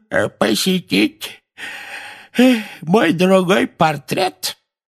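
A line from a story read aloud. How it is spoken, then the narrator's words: Creaky voice, feigned yawn. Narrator (Russian): скрипучим голосом сказал Финеас с притворным зевком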